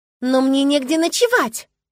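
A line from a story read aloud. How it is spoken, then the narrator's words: Slightly desperate exclamation. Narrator (Russian): воскликнула в легком отчаянии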